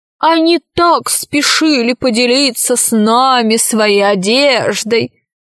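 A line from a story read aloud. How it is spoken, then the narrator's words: Troll laughing. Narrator (Russian): засмеялся тролль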